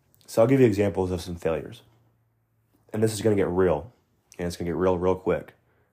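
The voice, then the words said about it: Sick, slightly altered voice. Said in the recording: “I'm a little sick right now, so bear with me. I'm sure my voice sounds a little different”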